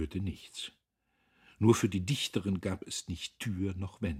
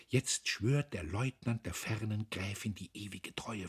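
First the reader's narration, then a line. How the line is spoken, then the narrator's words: Whispering. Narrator (German): flüsterte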